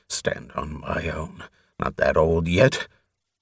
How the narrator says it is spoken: he mumbled gruffly

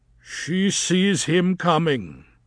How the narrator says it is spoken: he said thickly

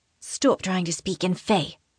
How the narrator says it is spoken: one of the women whispers in English

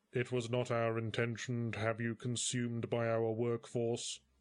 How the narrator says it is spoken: barked the dwarf in a monotone

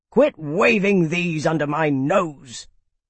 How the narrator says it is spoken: Graham irritably said

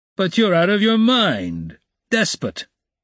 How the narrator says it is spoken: roared Razumihin

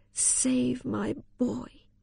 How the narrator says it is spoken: moaning out

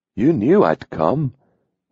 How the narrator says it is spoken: he breathed against her ear

